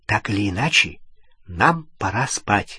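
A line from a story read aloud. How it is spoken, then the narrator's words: Whisper. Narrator (Russian): прошептала Гермиона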